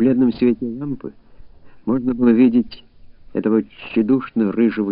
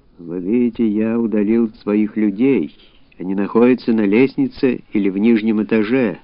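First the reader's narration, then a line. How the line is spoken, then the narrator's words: Dull monotonous voice. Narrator (Russian): Говорил он глухим, однообразным голосом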